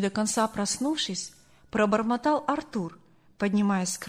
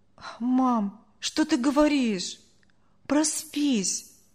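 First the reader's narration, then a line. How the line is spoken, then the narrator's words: Sighing boy. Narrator (Russian): вздохнул мальчик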